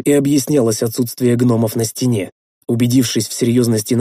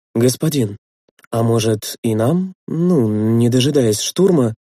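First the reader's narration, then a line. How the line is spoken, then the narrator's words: Timid suggestion. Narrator (Russian): робко предложил Литос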